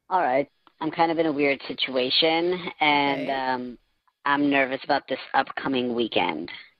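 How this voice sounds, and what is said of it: Voice altered by voice changer. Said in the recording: “our voice changer is on”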